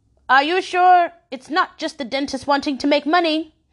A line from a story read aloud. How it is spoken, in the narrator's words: She hollered